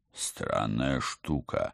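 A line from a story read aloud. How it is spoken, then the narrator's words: Thoughtful mutter. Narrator (Russian): задумчиво пробормотал Алекс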